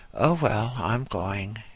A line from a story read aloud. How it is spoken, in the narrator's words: he said, yawning heavily